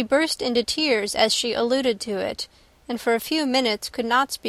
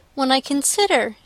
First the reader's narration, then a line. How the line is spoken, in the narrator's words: added in a yet more agitated voice